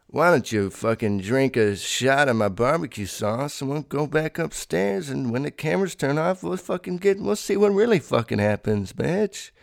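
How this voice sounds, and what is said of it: Weak Bill Cosby impression. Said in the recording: “I don't know how to do his voice. It would be a lot better if I could do a great Cosby fucking impression.”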